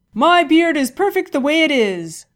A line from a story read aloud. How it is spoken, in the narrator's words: shouted the war chief